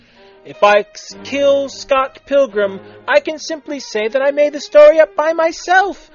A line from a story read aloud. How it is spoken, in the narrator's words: Mechanical Bay laughed